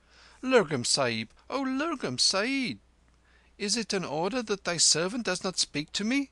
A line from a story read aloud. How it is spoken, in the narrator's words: Kim lifted up his voice and called aloud